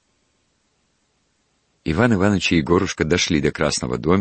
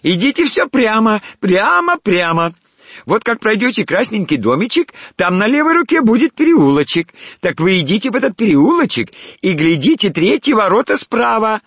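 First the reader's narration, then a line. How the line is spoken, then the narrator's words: Shrill, thin shouting. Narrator (Russian): Торговка стала кричать пронзительным, тонким голосом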